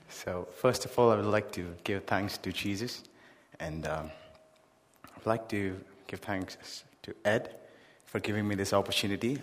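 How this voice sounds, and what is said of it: Speaks English with a noticeable accent. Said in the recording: “I'm really sorry if you're not able to understand my accent”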